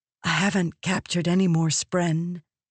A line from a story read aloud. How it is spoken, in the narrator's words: Navani whispered